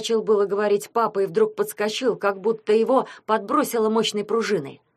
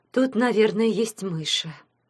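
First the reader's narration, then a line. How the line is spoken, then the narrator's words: Mother sighing. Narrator (Russian): вздохнула мама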